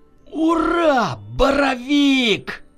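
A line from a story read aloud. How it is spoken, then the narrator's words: Joyful yell. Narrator (Russian): Радостно завопил Егор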